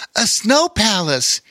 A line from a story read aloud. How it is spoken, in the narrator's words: he called out, jumping up and down and clapping his gloved hands